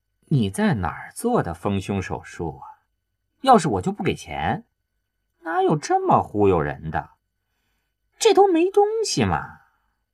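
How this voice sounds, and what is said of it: Disgusted, scornful tone. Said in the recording (Chinese): “一个嫌恶的声音说着”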